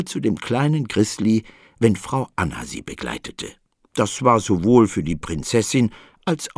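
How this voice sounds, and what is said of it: Usual voice. Nothing is said of it.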